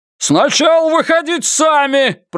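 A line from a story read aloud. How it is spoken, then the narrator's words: Shouted back. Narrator (Russian): прокричал в ответ Феннер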